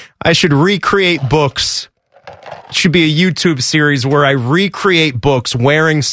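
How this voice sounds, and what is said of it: Usual voice. Nothing is said of it.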